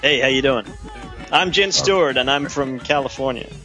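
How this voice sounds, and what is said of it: Put-on American accent. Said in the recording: “I could try that with an American accent”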